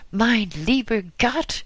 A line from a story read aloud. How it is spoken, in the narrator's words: she exclaimed